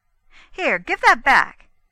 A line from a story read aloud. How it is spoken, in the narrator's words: she cried quickly